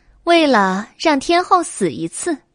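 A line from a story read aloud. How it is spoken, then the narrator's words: Laughing. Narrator (Chinese): 白姬笑了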